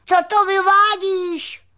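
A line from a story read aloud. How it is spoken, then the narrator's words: Shouted. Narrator (Czech): křikl křemílek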